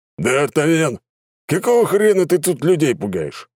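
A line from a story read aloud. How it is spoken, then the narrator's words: Barked. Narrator (Russian): рявкнул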